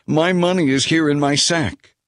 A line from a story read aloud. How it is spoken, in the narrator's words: he exclaimed to his brothers